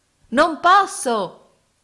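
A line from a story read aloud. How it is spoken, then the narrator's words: Shouted reply. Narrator (Italian): risposi gridando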